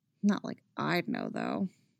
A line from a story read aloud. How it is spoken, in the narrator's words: the weed had loosened her tongue too much, because then Chrissy had muttered